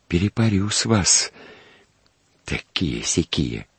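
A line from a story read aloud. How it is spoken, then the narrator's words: Soft, habitual. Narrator (Russian): он по обыкновению мягко проговорил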